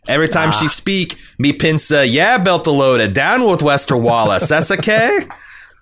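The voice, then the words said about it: Put-on Belter accent from The Expanse. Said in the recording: “Missaria's accent ... I think it's obvious where she's from. The belt.”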